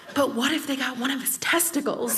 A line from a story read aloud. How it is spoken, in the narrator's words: she leans in and whispers